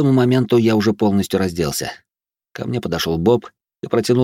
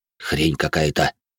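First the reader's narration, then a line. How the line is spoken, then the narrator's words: Lost, bewildered grumble. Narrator (Russian): потерянно буркнул мужик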